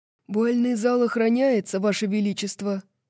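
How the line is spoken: Hoarse guard's voice. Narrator (Russian): хриплым голосом произносит стражник

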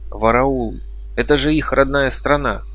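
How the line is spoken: Exclaimed. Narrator (Russian): воскликнул я

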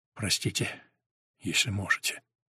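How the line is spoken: Very quiet. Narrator (Russian): совсем уж тихо

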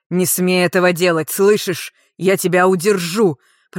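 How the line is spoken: Dragon growling. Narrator (Russian): прорычал дракон

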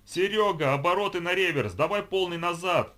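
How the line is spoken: Yelling. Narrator (Russian): заорал Осипов

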